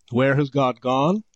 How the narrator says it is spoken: He cried

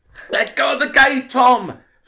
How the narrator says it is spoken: Frank shouted

